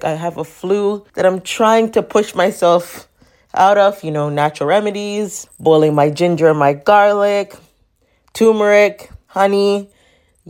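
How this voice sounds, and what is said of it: Sick, congested voice. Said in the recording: “My voice is terrible. I am sick ... my congestions ... don't mind the voice”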